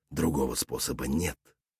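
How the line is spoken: Soft male voice. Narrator (Russian): мягко произнес мужчина

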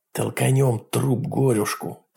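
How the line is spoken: Whisper. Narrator (Russian): прошептал Джек

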